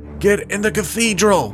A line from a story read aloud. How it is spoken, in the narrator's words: the human yelled